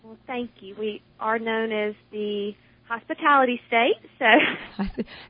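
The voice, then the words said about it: Mississippi Southern accent. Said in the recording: “You have such an adorable accent. You are from? ... Tupelo, Mississippi. ... Everything seems to sound nicer with that adorable accent.”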